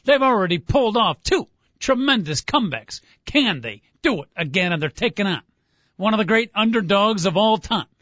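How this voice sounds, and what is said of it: Bad Howard Cosell impression. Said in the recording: “I am a bad impersonation of Howard Cosell”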